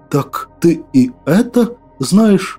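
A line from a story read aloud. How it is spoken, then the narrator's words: Astonished breath. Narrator (Russian): изумленно выдохнул я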